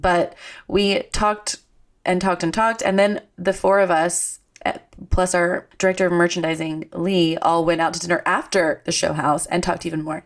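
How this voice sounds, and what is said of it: Hoarse voice. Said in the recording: “I'm hoarse because we talked our little ears off ... my throat is.”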